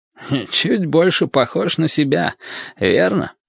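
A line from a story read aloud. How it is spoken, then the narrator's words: Hoarse question. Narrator (Russian): спросил он хриплым голосом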